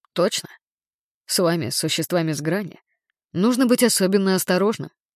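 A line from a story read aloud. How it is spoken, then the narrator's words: Calm voice, inner fury. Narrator (Russian): ответил я, удивляясь тому, как спокойно звучит мой голос, потому что внутри у меня все кипело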